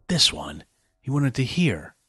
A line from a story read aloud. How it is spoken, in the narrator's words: Max whispered